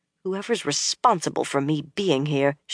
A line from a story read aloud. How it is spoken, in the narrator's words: she muttered